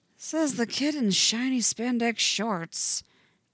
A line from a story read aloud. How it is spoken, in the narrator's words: Jason mutters